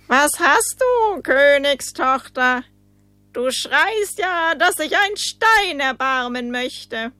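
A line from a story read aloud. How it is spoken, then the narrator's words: Someone calling. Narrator (German): rief ihr jemand zu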